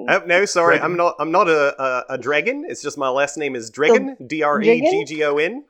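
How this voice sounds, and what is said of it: Vaguely Australian put-on accent. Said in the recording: “Sorry, my accent. ... you sound like you're from Australia, but not really.”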